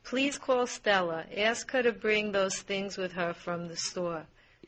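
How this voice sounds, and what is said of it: Distinct Brooklyn accent. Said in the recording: “this Brooklyn speaker ... It's a very distinct accent”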